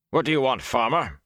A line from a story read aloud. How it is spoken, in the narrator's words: he demanded roughly